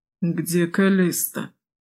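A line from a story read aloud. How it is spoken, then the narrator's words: Strained wheeze. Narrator (Russian): Кое-как прохрипел он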